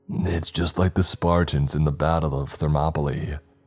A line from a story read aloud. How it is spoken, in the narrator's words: Samuel sighed